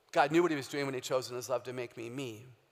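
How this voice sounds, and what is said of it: Low, resonant radio voice. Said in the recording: “Low voices are easier to hear than high voices ... I have a perfect radio voice.”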